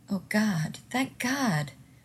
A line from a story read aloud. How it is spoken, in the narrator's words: Rodney exclaimed softly